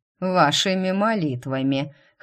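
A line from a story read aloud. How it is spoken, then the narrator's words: Scoffing snort. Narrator (Russian): хмыкнул мистер Сандерс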